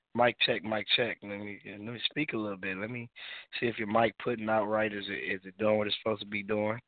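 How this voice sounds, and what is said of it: Raspy voice. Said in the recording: “I am under the weather, so, you know what I'm saying, I will be sounding kind of raspy tonight”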